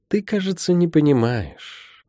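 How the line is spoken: Gentle healer interjecting. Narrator (Russian): мягко вмешалась целительница

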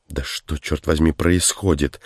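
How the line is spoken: Irritated. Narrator (Russian): Раздраженно обратился Тейнер

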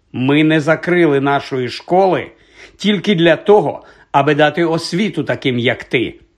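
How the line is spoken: Stern explanation. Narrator (Ukrainian): суворо пояснила вона

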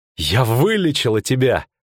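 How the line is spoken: Proud exclamation. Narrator (Russian): гордо воскликнула Цири

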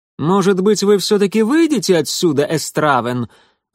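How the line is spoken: Loud, haughty, high nasal voice. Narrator (Russian): Громко и высокомерно сказал он своим высоким гнусавым голосом, этот мишнарский богатей

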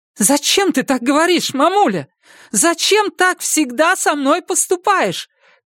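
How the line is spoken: Tearful shout. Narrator (Russian): крикнула она сквозь слезы

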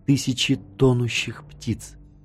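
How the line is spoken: Whispered. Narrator (Russian): прошептала Кати

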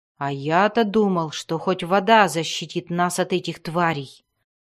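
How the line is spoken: Growled. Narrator (Russian): прорычал Вульфгар

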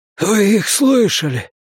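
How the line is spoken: Hoarse rasp. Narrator (Russian): прохрипел он

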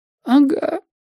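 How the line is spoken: Quiet sob. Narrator (Russian): тихонько всхлипнул Женька

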